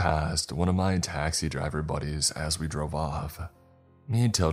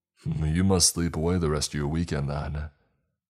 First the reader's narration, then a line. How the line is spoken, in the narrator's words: laughed